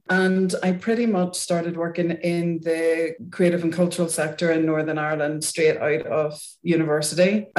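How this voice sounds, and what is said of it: Northern Irish accent. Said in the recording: “as you can probably tell from my accent, I'm not native to Wales ... I started off my career in Northern Ireland, where I lived until 5 years ago”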